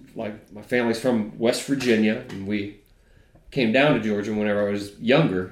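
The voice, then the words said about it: Mild drawl with newscaster-like diction. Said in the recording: “you've got a peculiar accent. ... It's not, you know, South Georgia ... I've got, like, a peculiar drawl on top of, like, this newscaster sort of, how would you call it, phonetic approach”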